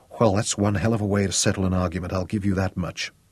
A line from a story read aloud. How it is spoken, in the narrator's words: whispered raggedly into his mouth